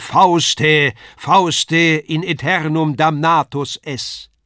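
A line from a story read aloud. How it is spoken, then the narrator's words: Thundering voice calls. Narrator (German): ruft eine Donnerstimme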